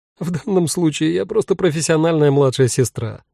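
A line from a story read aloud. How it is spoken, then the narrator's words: Laughing. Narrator (Russian): рассмеялась Марьяна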